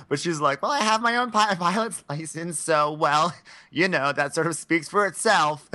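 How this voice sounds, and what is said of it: Poor impression of a pageant contestant. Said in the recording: “This is a terrible impersonation of her. It got, like, all wrong. It, like, came out all wrong.”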